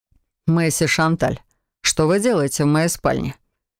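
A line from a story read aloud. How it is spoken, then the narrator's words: Mocking question. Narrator (Russian): насмешливо поинтересовался маг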